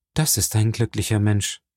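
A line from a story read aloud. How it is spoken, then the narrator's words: Sighing. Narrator (German): sagte seufzend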